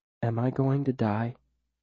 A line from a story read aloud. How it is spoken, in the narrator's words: She asks quietly